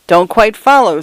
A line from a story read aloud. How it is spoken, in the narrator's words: said Mr